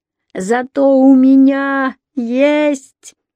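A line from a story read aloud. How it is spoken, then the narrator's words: Very loud shout. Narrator (Russian): крикнула Лависа так громко, что все вороны взлетели с зубцов крепостной стены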